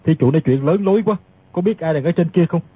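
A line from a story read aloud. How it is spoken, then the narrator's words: Cold smirk. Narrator (Vietnamese): Tiết Thần Y cười nhạt nói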